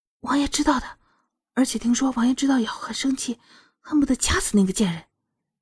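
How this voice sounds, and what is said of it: Quiet, hushed speech. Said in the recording (Chinese): “小声的说着”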